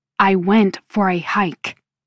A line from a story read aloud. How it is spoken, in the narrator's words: I explain in a hard voice